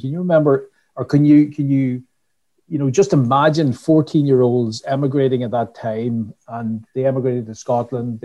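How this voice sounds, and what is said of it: Irish Donegal accent. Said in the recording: “a real Donegal accent ... you definitely won't pick up the, the American”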